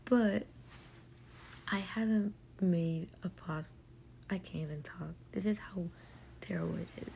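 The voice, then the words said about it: Raspy, just-woke-up voice. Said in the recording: “my voice is a little raspy ... because I kind of just woke up”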